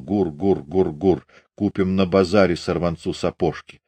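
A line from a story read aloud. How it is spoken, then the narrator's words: Mumbling. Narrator (Russian): бормотал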